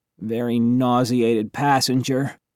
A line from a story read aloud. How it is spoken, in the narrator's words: Cass mumbled